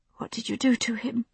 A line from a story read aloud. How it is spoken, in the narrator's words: she asked hoarsely